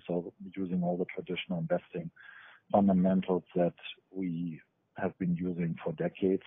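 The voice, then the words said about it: Foreign accent. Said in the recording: “back from the old world, as you can tell by my accent.”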